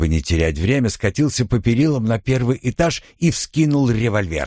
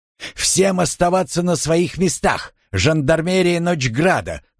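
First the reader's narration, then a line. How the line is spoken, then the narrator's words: Loud announcement. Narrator (Russian): громко объявил я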